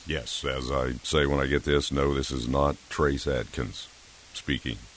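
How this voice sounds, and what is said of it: Unusually deep voice. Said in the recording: “You have a normally deep voice, but even deeper under these conditions.”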